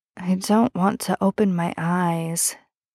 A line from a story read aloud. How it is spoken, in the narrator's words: Ben mumbles, because he feels like if he does, he'll discover he's dreaming